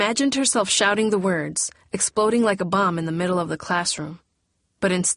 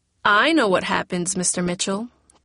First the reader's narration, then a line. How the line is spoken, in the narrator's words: Teresa said then